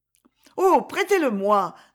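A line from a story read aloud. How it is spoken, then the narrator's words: Eager exclamation. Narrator (French): s'écria Louise avec ardeur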